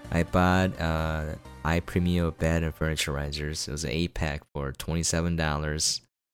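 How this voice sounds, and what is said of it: Deeper, sick-sounding voice. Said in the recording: “I'm a little bit sick, so my voice might sound a little bit deeper”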